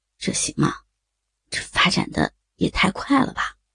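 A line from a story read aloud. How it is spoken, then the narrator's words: Dazed murmur. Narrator (Chinese): 李峰有些发呆，喃喃地说着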